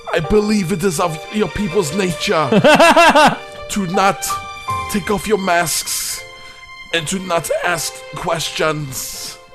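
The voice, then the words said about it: Imitates another person's voice. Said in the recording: “Your Werner Herzog impression is getting better.”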